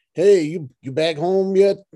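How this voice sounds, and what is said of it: Put-on Dallas Texan accent. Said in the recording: “That was my Dallas accent.”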